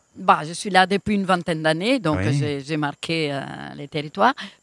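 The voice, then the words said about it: Italian accent speaking French. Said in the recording (French): “c'est comme si j'invitais Roberto Benigni... vous avez le même accent”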